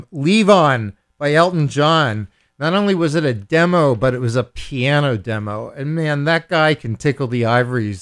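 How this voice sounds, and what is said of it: Philadelphia American accent. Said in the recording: “I'm an American Jewish lord, so you're you're kind of stuck with this this this Philadelphia accent that I have”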